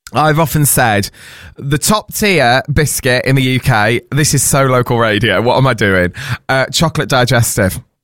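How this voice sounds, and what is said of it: Hoarse voice. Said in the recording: “I'm going to tell you why I'm hoarse”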